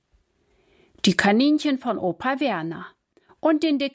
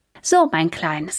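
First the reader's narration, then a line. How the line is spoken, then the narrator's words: Plain. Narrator (German): sagt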